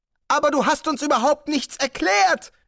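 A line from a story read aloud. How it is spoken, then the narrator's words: Whining complaint. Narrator (German): jammerte Zweiblum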